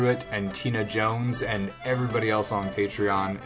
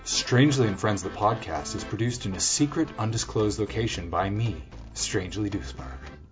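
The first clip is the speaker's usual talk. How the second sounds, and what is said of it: NPR-style public radio announcer voice. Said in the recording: “put on my NPR voice.”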